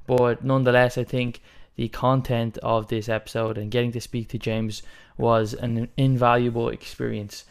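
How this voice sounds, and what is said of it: Voice sounds slightly sick. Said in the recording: “I'm a little bit sick in this episode, you can kind of tell from my voice”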